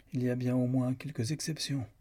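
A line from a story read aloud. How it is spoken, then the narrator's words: Said coldly. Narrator (French): dit froidement Lucan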